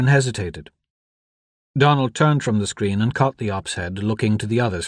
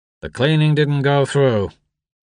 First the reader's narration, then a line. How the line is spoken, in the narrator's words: the operator said flatly